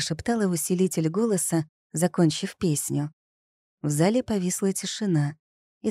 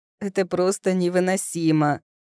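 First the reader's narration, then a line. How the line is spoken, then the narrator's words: Loud moan. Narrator (Russian): громко простонал Франко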